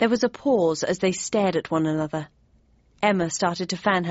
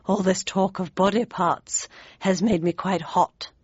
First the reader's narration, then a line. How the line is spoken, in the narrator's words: she murmured